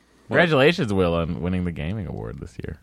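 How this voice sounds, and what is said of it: Imitates another person's voice. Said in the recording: “doing a Will impersonation”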